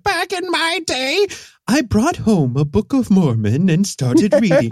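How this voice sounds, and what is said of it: Old lady voice. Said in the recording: “this old lady, like, well, back in my day voice”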